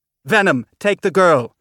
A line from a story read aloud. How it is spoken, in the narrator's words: she shouted over the deafening sound of the ship